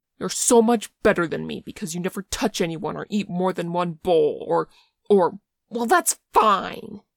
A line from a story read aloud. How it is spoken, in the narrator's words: he spat